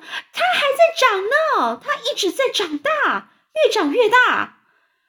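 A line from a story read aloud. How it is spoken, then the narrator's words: Shouting. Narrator (Chinese): 史派克姨妈就大叫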